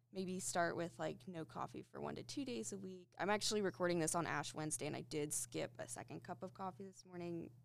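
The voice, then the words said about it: Groggy voice. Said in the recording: “my voice sounds really groggy”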